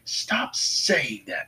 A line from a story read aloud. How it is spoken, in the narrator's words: Naruto snapped at her